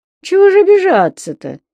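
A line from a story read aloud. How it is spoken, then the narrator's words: Conciliatory cooing. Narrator (Russian): примирительно заворковал Машлыкин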